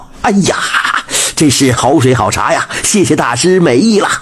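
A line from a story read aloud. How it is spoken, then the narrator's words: Loud praise. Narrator (Chinese): 李贵 大声地赞道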